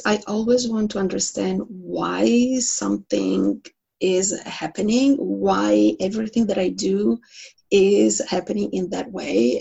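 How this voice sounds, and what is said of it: Italian accent. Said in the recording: “So I hear an accent. ... I was born and raised in Italy, in Milan.”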